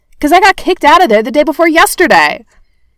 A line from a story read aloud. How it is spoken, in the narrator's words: Barney shouted